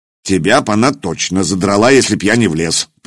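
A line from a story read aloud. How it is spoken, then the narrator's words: Grumbling. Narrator (Russian): проворчал Угр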